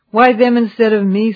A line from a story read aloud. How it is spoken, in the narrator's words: sighed Sam